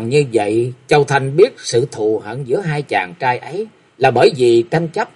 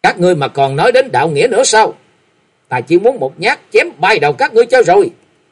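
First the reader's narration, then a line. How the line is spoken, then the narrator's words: Shouting loudly. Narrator (Vietnamese): Dân Thiên Bằng quát lớn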